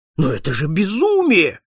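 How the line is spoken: Exclamation. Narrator (Russian): воскликнул посетитель

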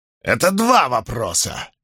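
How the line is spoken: Barked loudly. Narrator (Russian): гаркнула женщина

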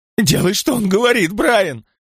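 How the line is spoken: Sudden furious spluttering shout. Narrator (Russian): Вдруг яростно закричала она, брызгая слюной

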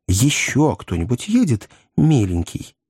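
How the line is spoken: Ingratiating question. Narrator (Russian): вкрадчиво осведомилась миссис Клаппинс

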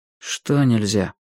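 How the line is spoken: Sad reply. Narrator (Russian): Грустно отозвался Юрик

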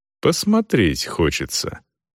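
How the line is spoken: Calm explanation. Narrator (Russian): спокойно пояснил Селдон

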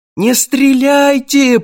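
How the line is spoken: Squealing. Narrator (Russian): провизжал я

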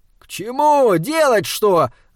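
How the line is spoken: Yelling. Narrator (Russian): заорал Саймон

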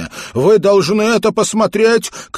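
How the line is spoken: Shouting. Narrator (Russian): крикнул я

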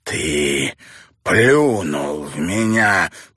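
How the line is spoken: Hissing, trembling with fury. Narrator (Russian): прошипел Барлоу, дрожа от бешенства

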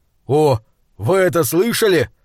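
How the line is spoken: Sudden exclamation. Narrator (Russian): вдруг воскликнул Тор

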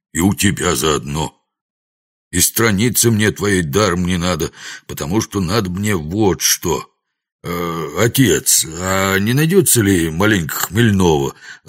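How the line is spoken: Timid plaintive squeak. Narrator (Russian): робко и жалобно вякнул он

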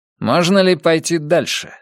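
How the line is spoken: Plain. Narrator (Russian): спросил Меллерстед

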